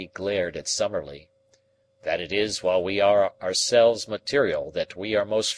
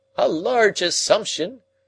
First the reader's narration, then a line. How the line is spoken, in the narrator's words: cried Summerlee